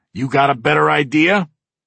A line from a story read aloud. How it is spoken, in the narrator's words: He snaps